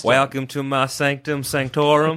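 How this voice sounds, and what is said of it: Put-on Texan accent. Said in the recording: “Why not just do a Texan one?”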